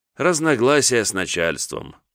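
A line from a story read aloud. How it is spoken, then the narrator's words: Sighing. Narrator (Russian): вздохнул Иван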